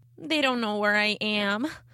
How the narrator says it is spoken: said miserably

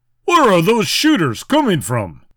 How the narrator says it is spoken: shouted as he ducked

